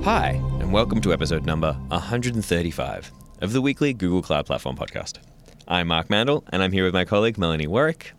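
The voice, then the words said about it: Unusually deep voice. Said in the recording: “I feel like I have a very deep voice today. ... You do. You have a very deep voice.”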